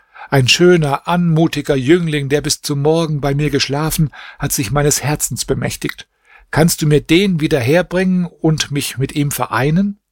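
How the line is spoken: Princess exclaiming. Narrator (German): rief die Prinzessin aus

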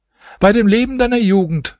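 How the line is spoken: Housekeeper calling out. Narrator (German): rief die Wirtschafterin

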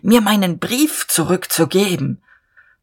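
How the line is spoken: Hoarse with excitement. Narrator (German): sagte Diederich heiser vor Erregung

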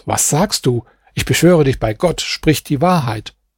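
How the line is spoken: Exclamation. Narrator (German): Er rief aus

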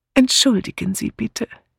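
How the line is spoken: Gentle objection. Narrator (German): widersprach Miss Marple sanft

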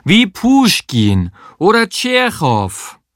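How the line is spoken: Calling in Russian accent. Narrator (German): rief, so russisch sie konnte

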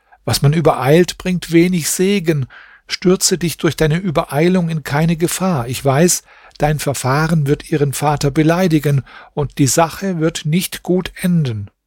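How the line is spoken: Servant calling again. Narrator (German): rief der Diener nochmals

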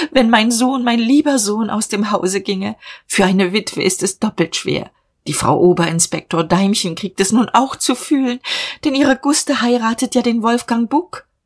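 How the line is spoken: Sobbing. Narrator (German): schluchzte sie

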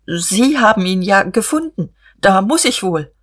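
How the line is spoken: Stammering. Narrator (German): Er stammelte

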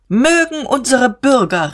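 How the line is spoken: Called out. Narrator (German): rief Diederich

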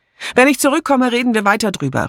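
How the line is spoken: Calling out. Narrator (German): rief sie

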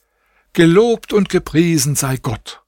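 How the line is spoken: Calling out. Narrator (German): rief ich

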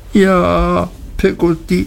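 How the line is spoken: Sobbing. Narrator (German): schluchzte

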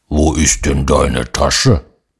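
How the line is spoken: Gruff grumbling. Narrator (German): ein Braunbär in der Wohnung, der brummt

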